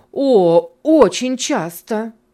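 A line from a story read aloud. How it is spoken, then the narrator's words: Ardent exclamation. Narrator (Russian): с жаром воскликнула первая дама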